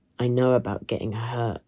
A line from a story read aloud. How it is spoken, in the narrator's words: I said